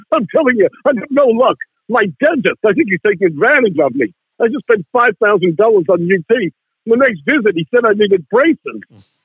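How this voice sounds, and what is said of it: Imitates another person's voice. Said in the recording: “It was a good impersonation.”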